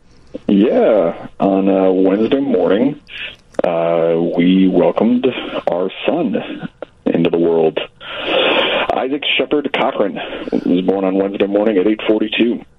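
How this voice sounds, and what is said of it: Tired-sounding voice. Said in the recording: “He sounds tired”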